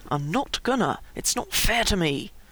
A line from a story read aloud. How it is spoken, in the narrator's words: Finally JC said softly and through gritted teeth